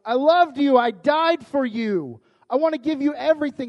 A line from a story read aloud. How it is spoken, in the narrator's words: God shouting